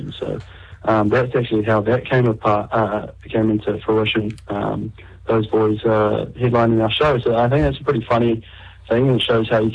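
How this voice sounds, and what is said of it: Tired-sounding voice. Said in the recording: “you sound pretty tired.”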